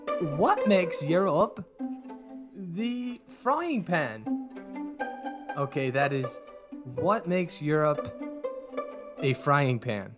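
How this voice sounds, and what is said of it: Put-on accent. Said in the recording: “I'm going to say it in my best accent ... Oh, here comes the accent.”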